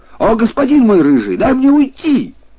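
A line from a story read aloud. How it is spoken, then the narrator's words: Shouted from a distance. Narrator (Russian): будучи в отдалении, крикнул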